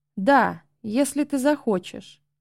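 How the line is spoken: Calm young voice. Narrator (Russian): спокойно ответил юный незнакомец

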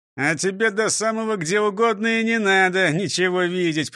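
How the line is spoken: Grumbling. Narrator (Russian): проворчал шеф

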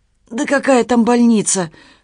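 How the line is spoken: Rasping. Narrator (Russian): прохрипел Толя

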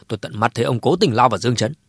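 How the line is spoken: Angry, firm. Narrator (Vietnamese): Cố Thái Sơ tức giận ra mặt, vẫn kiên định nói

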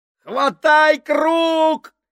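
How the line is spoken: Shouting. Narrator (Russian): кричал Поллард

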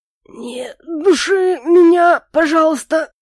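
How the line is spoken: Hoarse, strained. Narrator (Russian): сипло произнес Моррис

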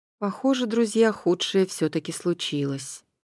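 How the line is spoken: Gloomy remark. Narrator (Russian): мрачно обронил Поликрит

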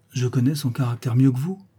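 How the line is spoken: Softened tone. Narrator (French): ajouta-t-elle d'un ton radouci

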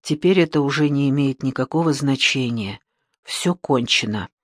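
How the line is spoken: Sad. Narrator (Russian): Печально посмотрев ему в глаза, Джейми сказала

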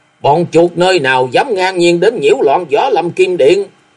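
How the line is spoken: Roar. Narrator (Vietnamese): Cùng với tiếng gầm

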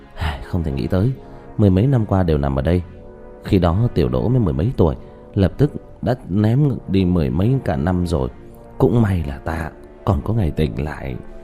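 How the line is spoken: Sighing. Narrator (Vietnamese): thở dài

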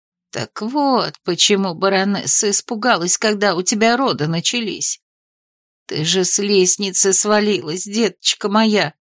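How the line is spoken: Confused mutter. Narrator (Russian): пробормотала она растерянно

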